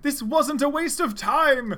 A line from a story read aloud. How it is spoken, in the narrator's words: cried Cheese, the rabbit, and Chow were very happy